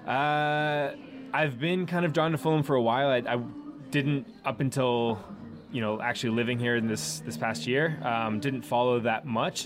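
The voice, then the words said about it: American accent. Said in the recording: “if you can't tell by my accent, I'm an American.”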